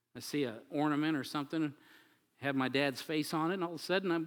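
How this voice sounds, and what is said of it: Choked-up, emotional voice. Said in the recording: “getting choked up like I am now”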